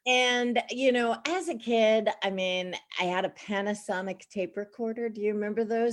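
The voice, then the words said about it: Slight Long Island New York accent. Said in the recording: “I grew up in Baldwin, Long Island, New York. So there's a little bit of the accent.”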